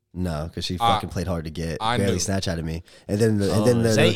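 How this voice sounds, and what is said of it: Southern Florida accent. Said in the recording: “real Florida accent, real Southern”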